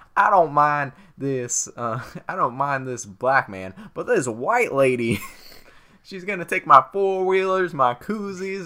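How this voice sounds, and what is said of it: Weak put-on Southern US accent. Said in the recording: “I can't do his accent right very well, but he's making fun of southern people”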